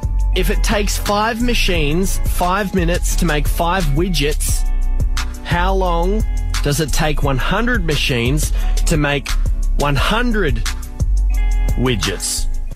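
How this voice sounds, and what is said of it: British accent. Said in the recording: “This British accent's ... It's the accent.”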